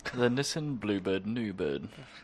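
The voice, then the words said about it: Put-on British accent. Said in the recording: “I have to say that in a British accent.”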